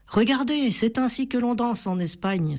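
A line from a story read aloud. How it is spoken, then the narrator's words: Exclaimed. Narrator (French): s'exclama Mia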